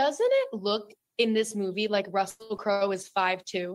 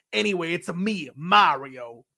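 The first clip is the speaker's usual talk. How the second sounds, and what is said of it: Weird Mario character voice. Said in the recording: “my voice was like weird”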